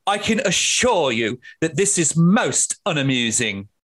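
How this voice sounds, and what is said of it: Posh upper-class voice. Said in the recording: “sounds posh”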